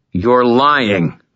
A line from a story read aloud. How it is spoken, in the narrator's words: I growled